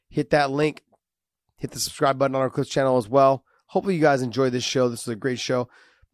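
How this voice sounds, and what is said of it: Raspy, sick-sounding voice. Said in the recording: “Pardon the raspy voice, the coughs, all the stuff. I'm a little sick right now.”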